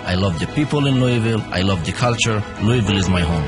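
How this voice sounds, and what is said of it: Non-Southern foreign accent. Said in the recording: “My accent may sound different ... He may not sound like a Southerner”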